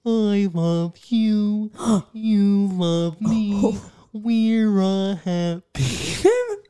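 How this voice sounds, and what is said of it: Impression of Barney. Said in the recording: “do an impression of Barney”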